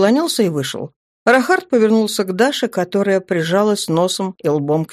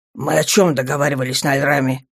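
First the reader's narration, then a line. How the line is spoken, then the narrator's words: Growled. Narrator (Russian): рыкнул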